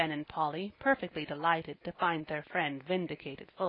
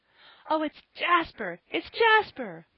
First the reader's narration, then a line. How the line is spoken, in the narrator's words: cried all the children in a breath